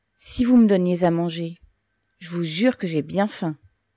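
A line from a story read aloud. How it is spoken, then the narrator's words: Sudden pockmarked man's cry. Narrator (French): s'écria soudain le grêlé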